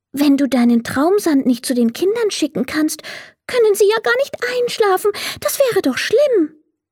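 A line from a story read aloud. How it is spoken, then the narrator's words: Little fairy, sad. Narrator (German): merkte die kleine Fee traurig an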